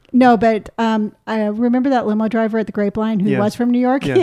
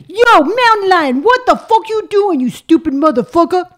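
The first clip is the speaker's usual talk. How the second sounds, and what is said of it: Put-on New York accent. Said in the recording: “So you're from New York ... that was pretty good ... But it's not loud and intimidating ... Actually, that's pretty good”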